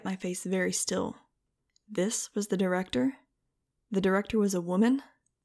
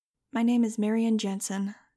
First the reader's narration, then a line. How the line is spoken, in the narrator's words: said calmly